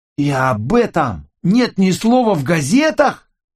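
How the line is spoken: Indignant exclamation. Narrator (Russian): негодующе воскликнул Джо

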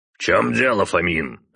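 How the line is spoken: Father's bark. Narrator (Russian): рявкнул отец

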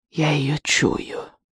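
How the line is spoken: Hissed through clenched teeth. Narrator (Russian): прошипела она сквозь стиснутые зубы

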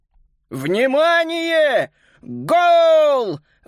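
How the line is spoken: Shouting. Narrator (Russian): выкрикнул противник Макса Паскаль

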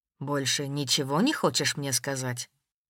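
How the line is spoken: Quiet question. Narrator (Russian): Тихо спросил Воронцов

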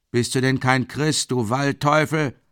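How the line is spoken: Old man calling from crowd. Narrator (German): ruft ein alter Mann aus der Menge

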